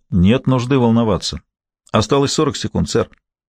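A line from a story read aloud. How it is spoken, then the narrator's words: Calm while running, over microphone. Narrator (Russian): Гамаш на бегу спокойно говорил в микрофон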